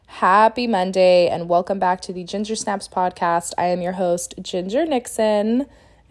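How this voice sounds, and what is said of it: Sick, strep-throat voice. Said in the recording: “if you can't tell the difference in my voice, I am sick once again ... I got strep throat”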